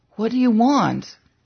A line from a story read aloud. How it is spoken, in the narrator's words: Sleepily said